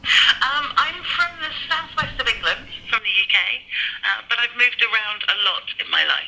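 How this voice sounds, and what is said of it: British English accent. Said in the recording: “as we can hear, you have a British accent”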